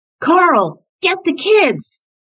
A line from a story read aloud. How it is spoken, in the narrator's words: he heard Chris shouting